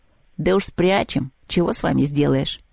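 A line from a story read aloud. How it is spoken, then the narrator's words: Grumbling. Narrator (Russian): заворчал Домовой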